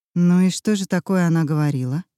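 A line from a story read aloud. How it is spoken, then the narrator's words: Plain question. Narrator (Russian): спросила я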